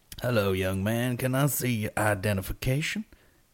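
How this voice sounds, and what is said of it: House of Cards character accent. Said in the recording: “I'm doing the accent again from this night. From House Cards.”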